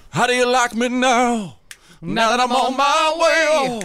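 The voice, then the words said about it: Sung impression of a country singer. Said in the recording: “Why is Toby Keith sounding like Cher? ... my Toby Keith impression ... Also, Reba, it's got a little Reba. It's got a little Elvis.”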